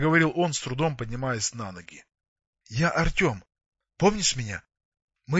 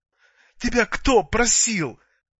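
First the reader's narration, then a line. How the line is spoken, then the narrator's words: Sobbing. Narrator (Russian): всхлипнула она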